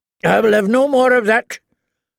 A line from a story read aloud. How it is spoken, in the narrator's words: Lord Randall told his wife harshly